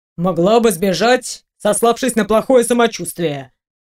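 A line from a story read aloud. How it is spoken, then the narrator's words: Mocking snort. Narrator (Russian): хмыкнул мужчина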